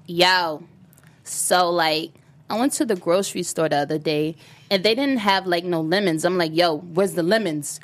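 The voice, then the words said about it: Imitates another person's voice. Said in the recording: “can you give us one celebrity impersonation right now?”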